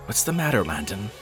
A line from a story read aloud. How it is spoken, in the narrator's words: I asked anxiously